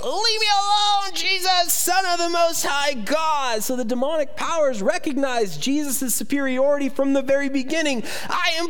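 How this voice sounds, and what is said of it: Weird demon voice. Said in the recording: “my weird demon voice”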